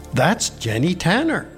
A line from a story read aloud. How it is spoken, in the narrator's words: she exclaimed, coming to a sudden stop